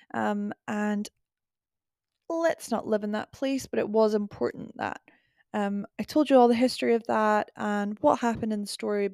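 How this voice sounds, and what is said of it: Congested, stuffy voice. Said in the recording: “deal with my hay fever for 5 seconds, as I'm sure you can hear it in my voice.”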